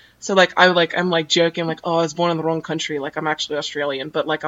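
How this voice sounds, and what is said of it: Usual voice. Nothing is said of it.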